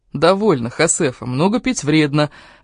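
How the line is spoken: Laughing. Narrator (Russian): рассмеялся Хосе

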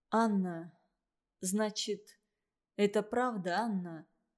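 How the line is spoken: Timid question. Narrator (Russian): спросил он робко

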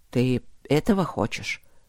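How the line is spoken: Hoarse question. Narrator (Russian): сипло спросил

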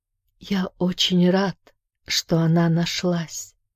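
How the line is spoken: Barely audible whisper. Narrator (Russian): прошептал тот едва слышно

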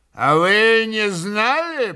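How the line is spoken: Mocking, spiteful. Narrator (Russian): Митя насмешливо и злобно улыбнувшись

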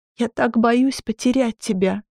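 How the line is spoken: Sobbing. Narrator (Russian): всхлипывала она

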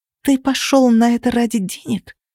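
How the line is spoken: Hissed. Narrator (Russian): прошипела я

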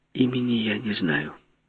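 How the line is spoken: Near whisper. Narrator (Russian): почти шепотом сказала Желтовская

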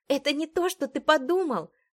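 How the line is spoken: Exclaimed. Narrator (Russian): воскликнула я

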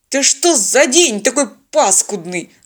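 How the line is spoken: Irritated bark. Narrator (Russian): раздраженно рявкнул пилот

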